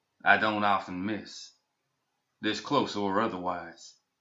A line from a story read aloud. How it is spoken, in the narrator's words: said calmly